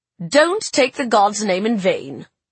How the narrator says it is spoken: Grandmama snapped

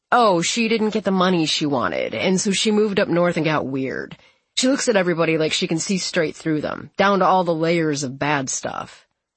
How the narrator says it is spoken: he sighs and says

